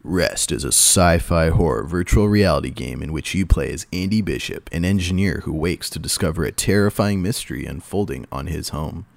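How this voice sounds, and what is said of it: Movie trailer narrator voice. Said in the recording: “do your movie voice? ... I'll do the movie voice.”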